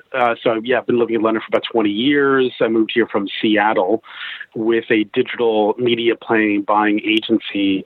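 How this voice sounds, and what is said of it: American accent with a twang. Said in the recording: “as you can gather from the twang, I'm an American”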